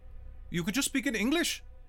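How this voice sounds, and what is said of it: Thick British Indian accent. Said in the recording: “she says to you in her thick British Indian accent”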